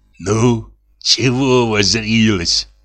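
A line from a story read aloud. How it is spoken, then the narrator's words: Angry whisper. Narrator (Russian): сердито прошептал Савелий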